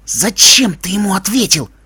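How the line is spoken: Indignant hiss. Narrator (Russian): возмущенно зашипел Себастьян

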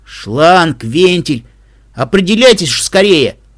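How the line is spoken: Irritated hiss, loud sniffle. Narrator (Russian): Раздраженно процедил третий и громко шмыгнул сопливым носом

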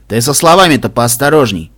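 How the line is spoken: Wry snort. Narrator (Russian): хмыкнул Стилхувс

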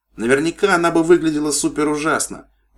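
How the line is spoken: Struggling exclamation. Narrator (Russian): воскликнула Пегаска, выворачиваясь из копыт медсестры

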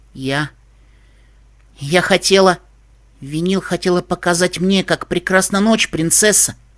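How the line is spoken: Unexpectedly firm voice. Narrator (Russian): Неожиданно твердым голосом вступила в разговор Окти

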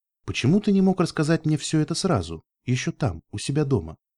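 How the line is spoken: Calm, unfamiliar voice. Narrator (Russian): спокойно произнесла я, даже немного не узнав свой голос

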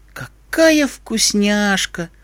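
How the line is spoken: Sighing. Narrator (Russian): вздохнула Искорка

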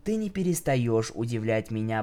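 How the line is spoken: Whisper. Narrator (Russian): прошептала

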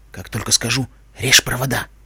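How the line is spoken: Whisper. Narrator (Russian): прошептал Уайт

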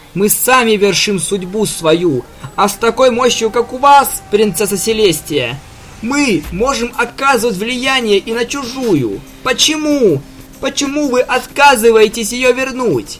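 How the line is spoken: Broken, shouting. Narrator (Russian): кричала сломленная принцесса

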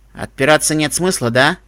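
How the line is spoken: Wry snort. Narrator (Russian): хмыкнула

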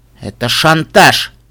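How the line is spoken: Snorted. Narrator (Russian): фыркнул он

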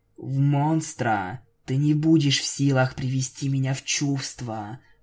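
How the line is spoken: Whispered. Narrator (Russian): прошептала Винил

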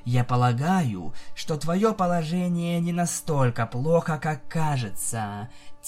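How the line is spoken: Quiet. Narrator (Russian): тихо сказала Луна

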